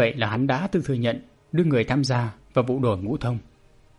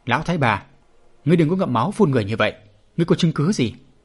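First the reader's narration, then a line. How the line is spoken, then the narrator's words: Angry shout. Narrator (Vietnamese): Qua Trường Giang quát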